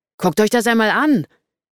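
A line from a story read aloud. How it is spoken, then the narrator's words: Calling out. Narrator (German): rief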